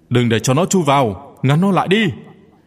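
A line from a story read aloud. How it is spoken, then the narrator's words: Shout. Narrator (Vietnamese): Một người hét lên một tiếng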